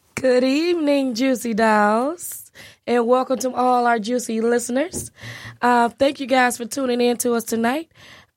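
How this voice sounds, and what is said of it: Husky, unusually deep voice. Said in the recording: “even though I sound like a sexy-ass drag queen right now”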